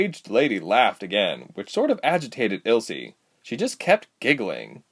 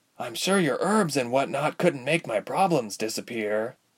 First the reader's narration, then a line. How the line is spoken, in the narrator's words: Ilse murmured